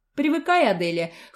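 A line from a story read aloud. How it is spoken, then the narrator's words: Snorting, wry. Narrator (Russian): хмыкнул Фил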